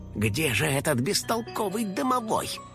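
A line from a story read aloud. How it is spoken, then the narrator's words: Muttered under breath. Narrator (Russian): пробормотал Финик себе под нос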